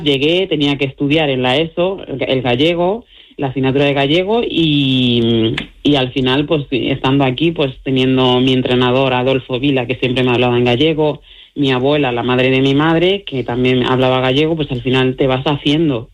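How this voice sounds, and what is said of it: Galician accent in Spanish. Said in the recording (Spanish): “acento gallego tengo”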